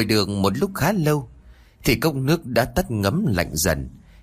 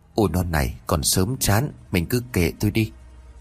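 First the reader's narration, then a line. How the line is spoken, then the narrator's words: Soft chuckling. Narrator (Vietnamese): ông khẽ cười rồi nói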